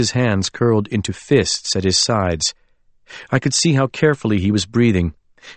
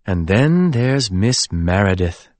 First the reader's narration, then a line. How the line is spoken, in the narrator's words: Gwendolyn purred